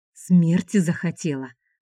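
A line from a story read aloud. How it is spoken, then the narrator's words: Hissed. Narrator (Russian): прошипел Шубин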